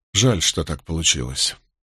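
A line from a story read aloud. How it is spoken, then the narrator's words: Sighing. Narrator (Russian): вздохнул я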